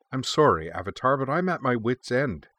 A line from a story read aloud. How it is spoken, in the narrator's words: the shop owner cried